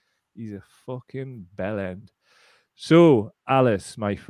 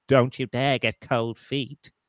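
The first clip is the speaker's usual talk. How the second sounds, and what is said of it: Poor Keir Starmer impression. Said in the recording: “the worst Starmer impression ever”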